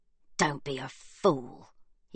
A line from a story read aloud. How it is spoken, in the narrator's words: he hisses